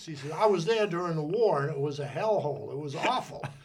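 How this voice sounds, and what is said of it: Massachusetts accent. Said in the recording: “our listeners have probably already caught a little bit of an accent ... I grew up in North Andover, Massachusetts. And I always think the accent's gone away. ... But it has not.”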